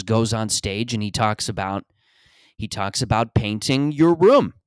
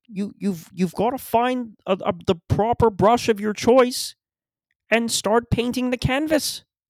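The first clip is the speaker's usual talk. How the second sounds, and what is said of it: Impression of a motivational speaker. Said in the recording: “I do a very good impression of this man”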